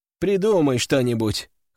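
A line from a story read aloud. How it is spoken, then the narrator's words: Chuckling. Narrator (Russian): хохотнула Анфиса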